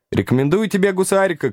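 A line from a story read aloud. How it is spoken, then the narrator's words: Woman shouting. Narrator (Russian): крикнула маркетанка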